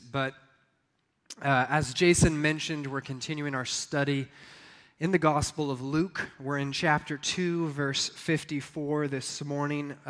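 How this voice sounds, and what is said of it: Sick voice that keeps cutting out. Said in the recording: “we've all been going through a little sickness this week, and my voice is here one moment, gone the next”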